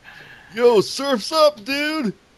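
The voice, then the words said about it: Weak attempt at California surfer accent. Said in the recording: “I can't do a California accent.”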